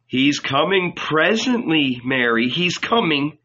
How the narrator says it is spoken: answered John

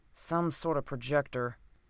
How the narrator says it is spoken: muttered the doctor

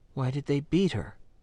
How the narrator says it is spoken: asked quietly

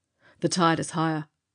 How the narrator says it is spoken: he cried

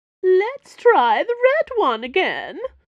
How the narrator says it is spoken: Porthos shrieked, playing up an accent that tilted between new aristocrat and hollow soap diva

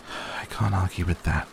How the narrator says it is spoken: I sighed

